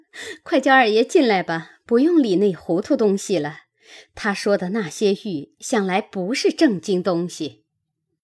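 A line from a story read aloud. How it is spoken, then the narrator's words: Laughing together. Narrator (Chinese): 大家笑起来，说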